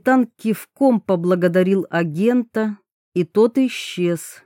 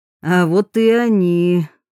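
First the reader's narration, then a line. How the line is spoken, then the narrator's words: Wry grunt. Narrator (Russian): хмыкнул Гоглидзе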